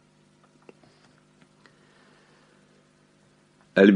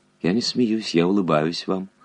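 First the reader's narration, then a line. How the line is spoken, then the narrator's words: Gentle reply. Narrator (Russian): ласково ответила Альбертина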